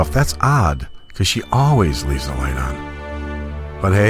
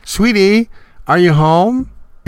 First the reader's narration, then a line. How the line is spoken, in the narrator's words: in a cheery voice